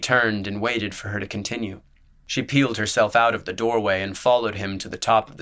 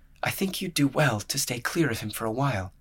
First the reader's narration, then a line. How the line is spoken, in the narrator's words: she murmured